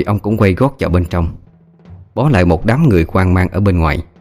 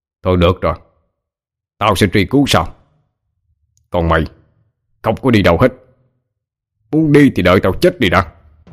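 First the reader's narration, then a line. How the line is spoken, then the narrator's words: Cold, unmoved. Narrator (Vietnamese): ông Hội không những không động lòng mà chỉ lạnh lùng nói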